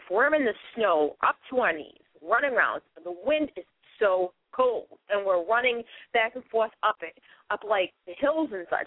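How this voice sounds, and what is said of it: Boston accent. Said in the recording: “I'm originally from Boston. As you can tell, you'll hear my accent”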